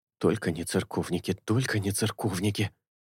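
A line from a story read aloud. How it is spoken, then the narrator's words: Whispering. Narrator (Russian): зашептал Чезаре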